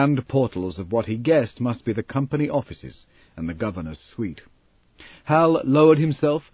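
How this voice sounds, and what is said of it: Usual voice. Nothing is said of it.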